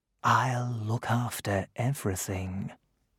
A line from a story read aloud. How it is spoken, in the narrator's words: Merlin whispered